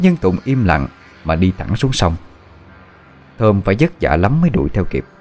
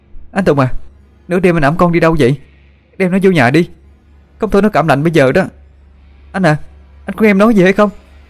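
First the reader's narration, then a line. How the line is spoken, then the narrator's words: Shouting while running. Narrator (Vietnamese): Cô vội chạy đuổi theo phía sau, miệng hét lên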